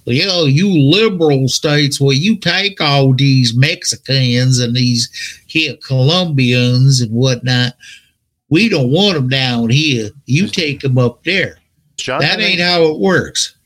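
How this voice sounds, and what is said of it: Poor put-on Alabama hillbilly accent. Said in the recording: “you're not as good at those accents as you think you are... He was doing an Alabama hillbilly accent.”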